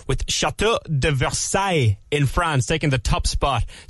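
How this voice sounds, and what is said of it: French accent on French name. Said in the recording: “my French accent there. I thought it was okay.”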